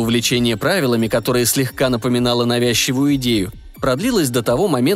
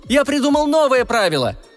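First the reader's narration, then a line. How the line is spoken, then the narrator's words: Delighted shout. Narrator (Russian): кричал с восторгом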